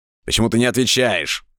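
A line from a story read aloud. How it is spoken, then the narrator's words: Fierce bark. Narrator (Russian): свирепо рявкнул я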